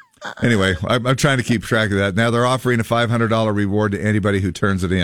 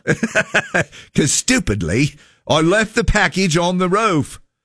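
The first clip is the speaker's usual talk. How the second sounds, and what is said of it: Put-on British-sounding accent. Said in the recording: “That's actually Australian. ... British. British. ... my accent was a little bit more Australian ... Your accent was more British.”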